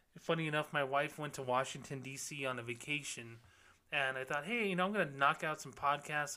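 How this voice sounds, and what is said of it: Sick-sounding, altered voice. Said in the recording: “my voice is a little bit different right now. While I've been really sick the last 2 weeks”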